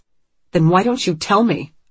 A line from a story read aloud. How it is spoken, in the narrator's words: Anne snaps